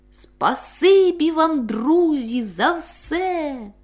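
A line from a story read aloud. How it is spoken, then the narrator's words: Respectful, loud speech. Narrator (Ukrainian): Півничок шанобливо, голосно, щоб усі чули, сказав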